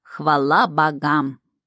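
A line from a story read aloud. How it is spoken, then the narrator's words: Solemn proclamation. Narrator (Russian): торжественно возвестил чертяка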